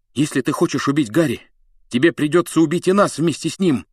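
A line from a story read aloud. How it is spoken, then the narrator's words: Furious shout. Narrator (Russian): яростно крикнул он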